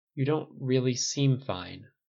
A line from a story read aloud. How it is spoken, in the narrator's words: Tony said hesitantly